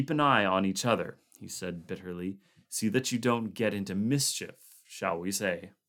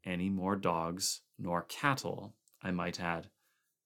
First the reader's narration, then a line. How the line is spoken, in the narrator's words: said MacReady softly